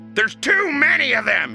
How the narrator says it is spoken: yelled

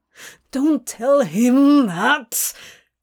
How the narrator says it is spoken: Crowley whines in annoyance

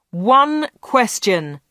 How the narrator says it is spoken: shouted Dave

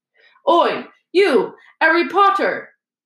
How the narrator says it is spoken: shouted a particularly grim-looking dwarf

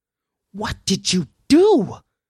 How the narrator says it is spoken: she choked out

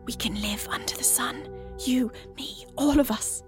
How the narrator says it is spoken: she whispers

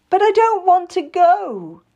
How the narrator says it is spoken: I cried

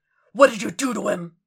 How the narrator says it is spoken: He growls

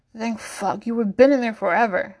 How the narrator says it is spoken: Zaire grumbles

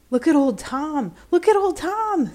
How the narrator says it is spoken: screamed his wife

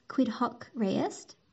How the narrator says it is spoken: asked Felix

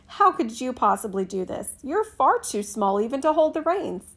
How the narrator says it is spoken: The man laughed and said

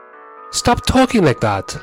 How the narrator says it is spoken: Laura cried out

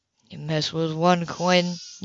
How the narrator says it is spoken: he muttered

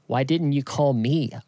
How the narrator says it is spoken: I asked

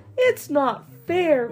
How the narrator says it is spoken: cried Little Bunny

